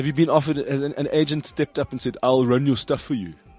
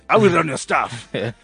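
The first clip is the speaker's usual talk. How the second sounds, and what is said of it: Put-on Zulu accent. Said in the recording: “Or would it be a Zulu agent? ... That's not even a Zulu. ... I don't know Zulu accent.”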